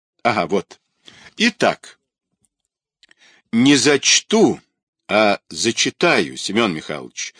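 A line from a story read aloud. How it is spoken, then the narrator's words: Stern remark. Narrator (Russian): строго заметила Змей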